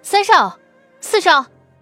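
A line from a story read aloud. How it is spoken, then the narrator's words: Sudden call. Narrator (Chinese): 高树清忽然叫了一声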